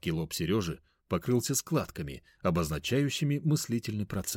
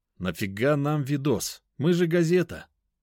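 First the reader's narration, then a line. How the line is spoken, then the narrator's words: Plain. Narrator (Russian): спросил я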